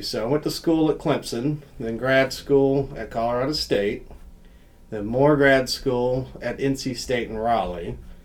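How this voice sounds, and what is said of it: Southern US accent. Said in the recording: “you can tell by my accent that I'm not from Northeast Ohio. So I'm originally from South Carolina.”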